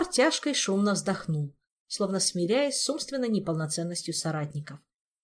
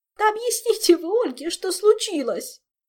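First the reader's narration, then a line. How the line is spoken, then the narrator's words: Hysterical sobbing. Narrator (Russian): истерически всхлипнула Зинь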